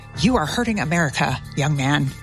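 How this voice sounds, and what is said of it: Stern scolding mom voice. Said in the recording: “my mom voice turned on”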